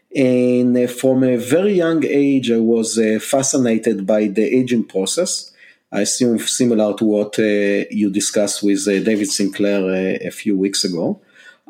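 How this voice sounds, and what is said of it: Israeli accent. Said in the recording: “you can hear from my accent that I'm not a Native American. I was born and raised in Israel.”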